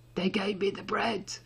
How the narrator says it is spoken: he said, his voice hoarse

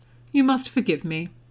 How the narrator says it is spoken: Dumbledore said dryly

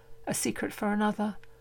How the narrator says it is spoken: she whispers

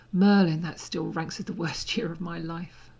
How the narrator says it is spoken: Draco muttered

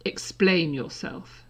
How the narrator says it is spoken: she said coldly

